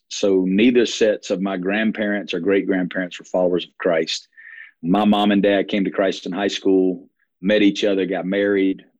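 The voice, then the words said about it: Alabama Southern accent. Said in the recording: “if you hear my accent, not originally from Las Vegas, born and raised in Alabama”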